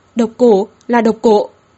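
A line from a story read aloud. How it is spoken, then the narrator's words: Alarmed low growl. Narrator (Vietnamese): Sắc mặt bà Kỷ đột nhiên biến đổi hẳn, gầm nhẹ nói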